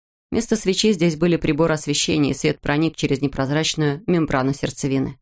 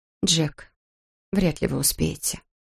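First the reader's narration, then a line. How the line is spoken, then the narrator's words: Quiet dry objection. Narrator (Russian): возразила она тихо, сухо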